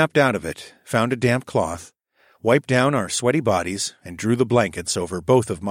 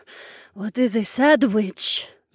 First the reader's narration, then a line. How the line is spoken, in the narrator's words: Zoe asked in a shivery voice